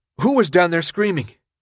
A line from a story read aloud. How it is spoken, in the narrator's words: Winston answered, his voice shaky